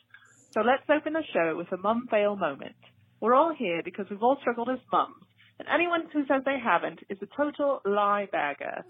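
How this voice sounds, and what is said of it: Put-on British accent. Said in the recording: “I'm going to start the show in Meredith's favorite British accent ... That was so good ... You got the pip, pip in there. That was great.”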